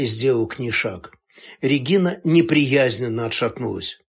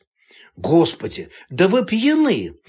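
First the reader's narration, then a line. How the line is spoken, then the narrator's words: Exclaiming. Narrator (Russian): воскликнула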